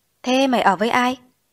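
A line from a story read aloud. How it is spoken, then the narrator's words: Sympathetic sigh. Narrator (Vietnamese): như cũng thương tình thở dài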